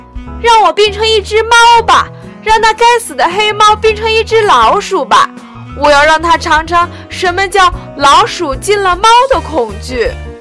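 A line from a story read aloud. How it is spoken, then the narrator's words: Loud. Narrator (Chinese): 老鼠大声地说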